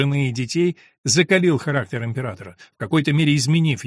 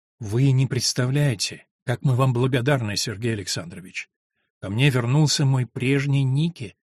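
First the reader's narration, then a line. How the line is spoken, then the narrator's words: Confiding, softly smiling. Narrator (Russian): доверительно сказала, как-то мягко улыбаясь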